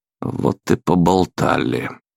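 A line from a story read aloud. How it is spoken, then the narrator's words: Exhausted mutter. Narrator (Russian): обессиленно пробормотал я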